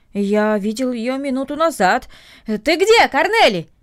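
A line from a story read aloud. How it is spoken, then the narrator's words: Shouting toward house. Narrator (Russian): крикнул он в сторону дома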